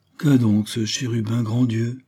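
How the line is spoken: Loud sigh. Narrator (French): soupira-t-elle à haute voix

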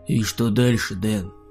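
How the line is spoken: Muffled question. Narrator (Russian): Глухо спросил Михаил

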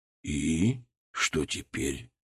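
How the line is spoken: Quiet and hoarse. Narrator (Russian): Его голос был тихим и хриплым

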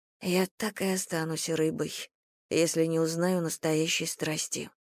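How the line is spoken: Whispered. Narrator (Russian): прошептала она Луне

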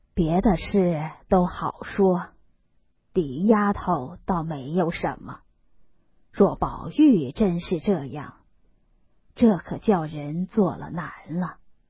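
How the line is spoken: Sighing. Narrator (Chinese): 贾母叹道

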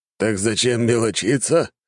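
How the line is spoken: Old man chuckling. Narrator (Russian): хохотнул старик

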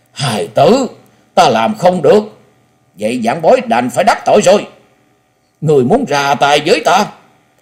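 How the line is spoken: Loud, agitated voice. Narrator (Vietnamese): thân hình run rẩy, nội tâm của hắn vô cùng kích động, lớn tiếng nói

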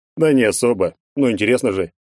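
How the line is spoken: Cheerful snort. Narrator (Russian): весело хмыкнул он

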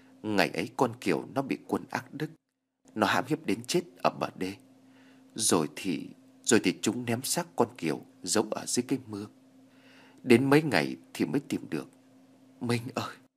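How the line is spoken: Woman, weeping. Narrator (Vietnamese): bà thân đã khóc lóc nói ngay

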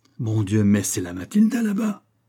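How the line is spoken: Exclaimed. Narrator (French): s'écria-t-il

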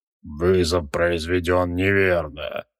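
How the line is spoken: Grumbling. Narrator (Russian): пробурчал он

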